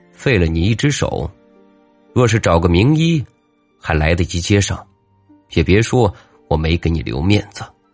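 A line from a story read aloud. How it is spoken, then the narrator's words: Icy, detached voice. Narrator (Chinese): 王五……用清冷异常的声音淡淡的说道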